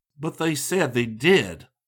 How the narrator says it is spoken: Scotty exclaimed

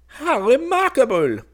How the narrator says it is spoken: exclaimed the king

